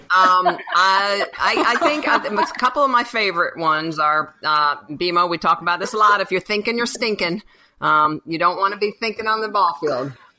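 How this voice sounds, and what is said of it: Suddenly changed, collegial-sounding accent. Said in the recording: “Did you just change your accent? ... Are you changing your accent right now ... All of a sudden, she's sounding very collegial.”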